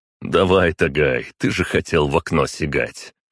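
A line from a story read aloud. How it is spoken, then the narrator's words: Snorting remark. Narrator (Russian): хмыкнул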